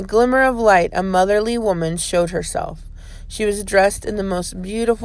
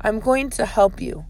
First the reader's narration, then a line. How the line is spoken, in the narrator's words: said the woman